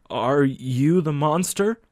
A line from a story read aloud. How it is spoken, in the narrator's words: He stuttered